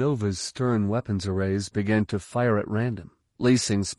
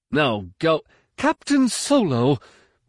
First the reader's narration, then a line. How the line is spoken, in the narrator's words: Morwan cried